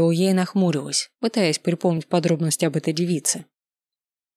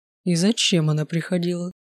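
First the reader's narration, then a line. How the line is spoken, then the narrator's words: Gloomy question. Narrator (Russian): мрачным тоном спросил Данте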